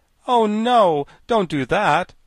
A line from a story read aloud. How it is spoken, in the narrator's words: exclaimed the Tin Woodman